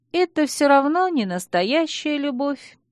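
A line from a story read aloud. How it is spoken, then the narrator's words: Sad, smiling. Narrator (Russian): грустно улыбнулась кузина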